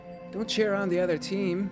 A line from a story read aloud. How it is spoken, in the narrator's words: your enemies all of a sudden yell back at them